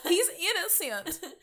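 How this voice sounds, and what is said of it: Put-on accent. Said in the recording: “I don't know why I'm choosing this accent.”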